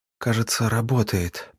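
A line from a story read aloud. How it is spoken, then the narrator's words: Young woman's whisper. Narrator (Russian): прошептала девушка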